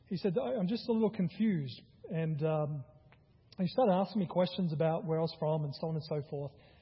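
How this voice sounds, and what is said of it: Australian accent. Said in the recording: “I'm originally from Australia, because he recognized my accent.”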